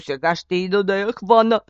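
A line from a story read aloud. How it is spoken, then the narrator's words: Dog shouting. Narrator (Bulgarian): извика кучето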